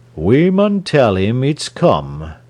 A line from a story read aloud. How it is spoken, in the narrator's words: he said slowly